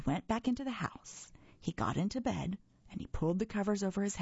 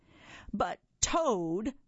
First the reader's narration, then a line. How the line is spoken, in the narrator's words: cried Frog